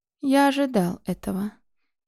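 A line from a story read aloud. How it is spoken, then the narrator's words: Unusually calm voice. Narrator (Russian): необычайно спокойным голосом произнес Шейр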